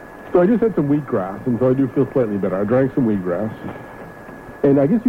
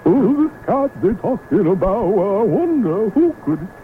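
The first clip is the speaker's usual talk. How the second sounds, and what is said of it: Imitates another person's singing voice. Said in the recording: “an impersonation of Bootsy Collins singing ... my impersonation of Bootsy Collins ... With a cold, singing Cool Jerk”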